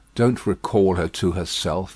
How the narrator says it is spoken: he said softly to the latter

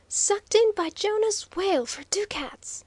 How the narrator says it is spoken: screamed Waldo excitedly

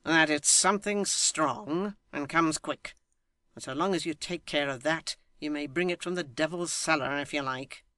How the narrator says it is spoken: Tappertit haughtily

